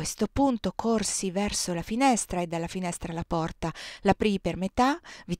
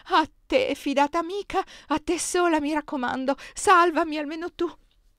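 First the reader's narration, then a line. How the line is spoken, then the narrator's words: Pleading, broken by sobs. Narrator (Italian): esclamò in tono supplichevole, interrotto da singhiozzi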